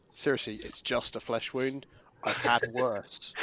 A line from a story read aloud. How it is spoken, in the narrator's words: sarcastically say